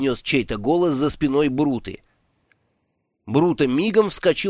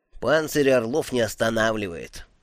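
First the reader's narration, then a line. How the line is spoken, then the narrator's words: Gloomy. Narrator (Russian): мрачно произнесла черепашка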